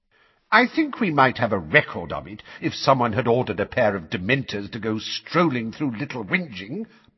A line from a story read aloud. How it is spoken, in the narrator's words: barked Fudge